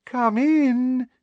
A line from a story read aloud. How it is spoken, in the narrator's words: in a sugary voice